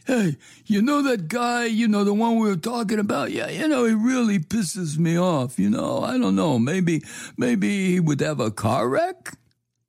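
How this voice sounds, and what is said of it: Phony put-on accent. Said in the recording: “Excuse my phony accent. Just playing.”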